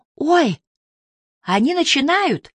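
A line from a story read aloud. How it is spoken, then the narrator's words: Excited cry. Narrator (Russian): взволнованно вскрикивает миссис Бакстер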